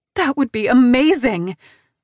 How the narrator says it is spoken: I gasp

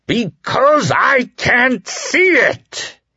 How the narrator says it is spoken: he roared

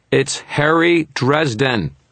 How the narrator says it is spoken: I shouted

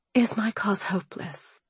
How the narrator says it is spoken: I whispered

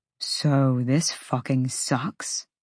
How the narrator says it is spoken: he said quietly

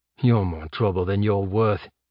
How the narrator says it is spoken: he muttered

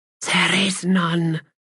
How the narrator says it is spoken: she whispered

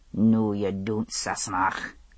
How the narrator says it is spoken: he muttered in English

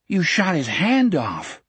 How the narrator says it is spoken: Richard whispered

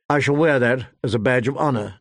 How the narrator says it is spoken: Ned said dryly

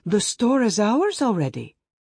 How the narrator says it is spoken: breathed Mother in astonishment

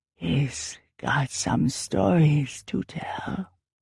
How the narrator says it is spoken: she whispered, her voice low, almost metallic sounding, as if she was speaking through a phone

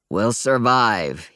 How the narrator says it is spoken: he growled

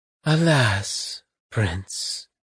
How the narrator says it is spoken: she said, with a deeper sigh than before

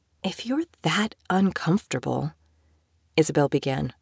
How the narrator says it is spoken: her voice a whisper

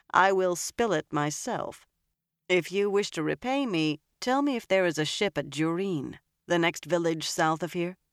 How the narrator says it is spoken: Nynaeve said dryly

